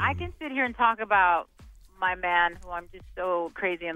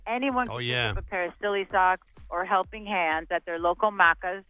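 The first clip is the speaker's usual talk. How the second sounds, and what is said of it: Put-on Australian accent. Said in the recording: “Very Aussie. ... Very good accent.”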